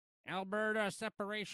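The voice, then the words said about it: Imitates a bot's voice. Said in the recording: “my impression of a bot, Frankie? ... This is my impression of a bot on Facebook.”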